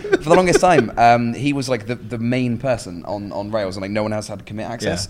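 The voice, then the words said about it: Distinct accent. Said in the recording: “distinct accent”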